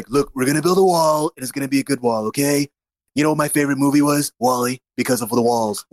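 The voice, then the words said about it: Donald Trump impression. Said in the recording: “I think I do a decent Trump accent, voice impression.”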